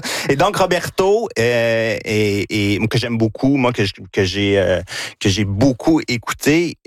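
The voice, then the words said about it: Quebec French regional accent. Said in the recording (French): “mon accent de Victoriaville”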